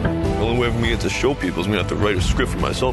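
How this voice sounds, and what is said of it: Good Sylvester Stallone impression. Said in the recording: “Sylvester Stallone ... Actor Anthony Ippolito plays him in the movie, and he does a pretty good impression.”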